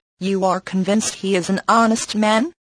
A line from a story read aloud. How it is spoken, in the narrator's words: cried